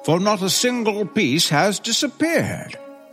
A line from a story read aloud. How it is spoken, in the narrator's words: cried the man